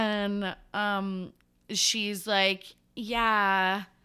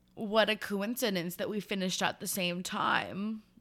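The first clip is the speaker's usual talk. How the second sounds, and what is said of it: Impression of a man. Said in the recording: “That's my impression of him”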